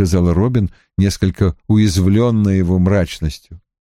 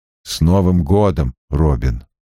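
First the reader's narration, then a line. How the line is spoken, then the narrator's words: Gruff mutter. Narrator (Russian): буркнул Страйк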